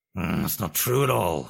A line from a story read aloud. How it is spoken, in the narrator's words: snorted the Duke